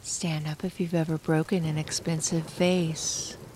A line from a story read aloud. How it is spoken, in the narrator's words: In a low, breathy voice, she said